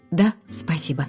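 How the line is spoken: Muttered. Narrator (Russian): пробормотала я

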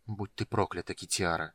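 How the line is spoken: Quiet. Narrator (Russian): тихо сказал Карамон

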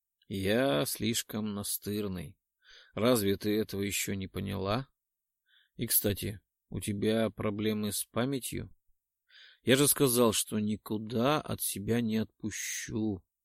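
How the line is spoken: Whispered in ear. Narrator (Russian): Прошептал ей на ухо

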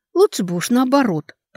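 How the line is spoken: Exasperated grumble. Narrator (Russian): проворчал, не выдержав Алекса

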